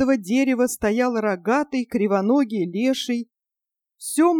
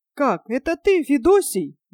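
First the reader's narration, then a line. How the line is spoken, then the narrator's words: Surprised young man exclaiming. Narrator (Russian): воскликнул удивленный юноша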